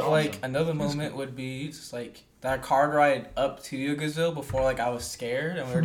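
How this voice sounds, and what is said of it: Usual voice. Nothing is said of it.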